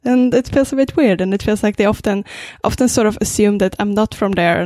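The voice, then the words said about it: Swedish accent in English. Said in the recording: “I'm originally from Sweden ... I would like to like get rid of my accent. I'm working quite hard on doing so ... oh, where's your accent from?”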